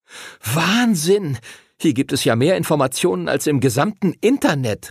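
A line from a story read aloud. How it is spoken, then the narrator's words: Excited call. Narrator (German): rief Arthur aufgeregt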